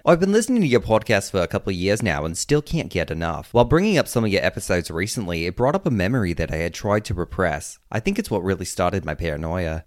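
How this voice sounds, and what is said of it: Put-on Australian accent. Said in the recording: “Please try your best Australian accent. ... How was that? Was that good? I can't do it the whole time.”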